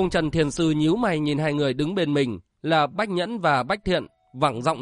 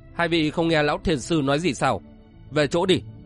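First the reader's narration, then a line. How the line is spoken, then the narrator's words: Stern voice. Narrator (Vietnamese): Bộc Dương Duy nghiêm giọng nói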